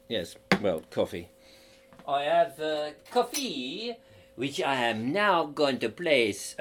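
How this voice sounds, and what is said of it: Put-on French accent. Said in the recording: “I'm doing it in a French accent.”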